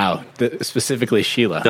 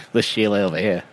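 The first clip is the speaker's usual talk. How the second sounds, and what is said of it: Attempted Australian accent, gangster-like. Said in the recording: “can you do an Australian accent and say Sheila? ... I was more of a 1920s gangster type.”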